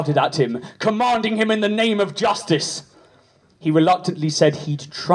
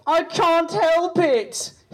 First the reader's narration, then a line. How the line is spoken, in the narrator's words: he whined pathetically